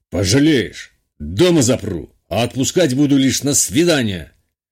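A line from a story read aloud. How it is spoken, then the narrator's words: Barked. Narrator (Russian): рявкнул Шитов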